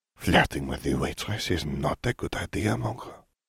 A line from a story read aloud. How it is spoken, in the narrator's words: Fleur whispered in his ear